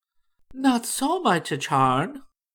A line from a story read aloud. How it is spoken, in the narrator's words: replied the princess gently